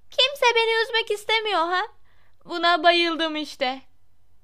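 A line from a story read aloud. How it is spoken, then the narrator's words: Shouting. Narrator (Turkish): diye bağırdı Myrtle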